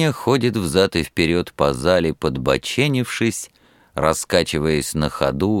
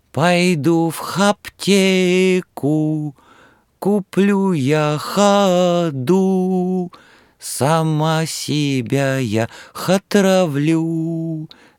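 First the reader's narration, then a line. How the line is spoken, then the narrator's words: Thin little voice. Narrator (Russian): заводит Нюра тоненьким голоском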